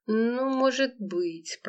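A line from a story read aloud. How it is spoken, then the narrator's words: Mumbling. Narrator (Russian): промямлила Лола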